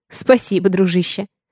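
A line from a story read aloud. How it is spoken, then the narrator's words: Laughing. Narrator (Russian): Рассмеялась я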